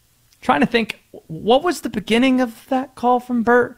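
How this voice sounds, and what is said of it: Usual voice. Nothing is said of it.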